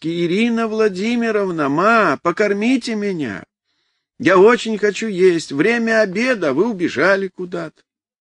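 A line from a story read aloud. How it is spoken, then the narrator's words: Sudden impatient boyish shout. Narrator (Russian): вдруг закричал нетерпеливо, по-мальчишески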